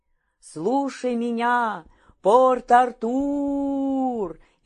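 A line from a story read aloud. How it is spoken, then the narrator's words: Full-force shout. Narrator (Russian): изо всей мочи крикнул Петр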